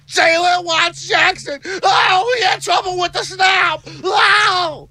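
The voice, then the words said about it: Excited sportscaster play-by-play voice. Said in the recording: “That's a Gus Johnson impersonation. ... No, it was a Sean McDonough.”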